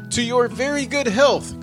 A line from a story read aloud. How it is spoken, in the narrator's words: cried the shepherd